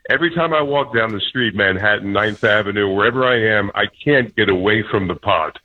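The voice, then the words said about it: Deep, big radio voice. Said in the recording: “We don't like people with deeper voices than me ... You sound great. You have a big radio voice.”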